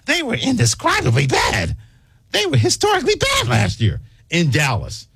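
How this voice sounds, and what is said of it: Imitates another person's voice. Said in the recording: “my best Tim Kirkson impersonation”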